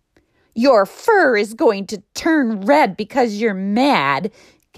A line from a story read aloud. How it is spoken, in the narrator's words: Giggly Goat yelled after him